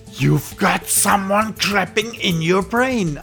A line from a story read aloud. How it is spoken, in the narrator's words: I shouted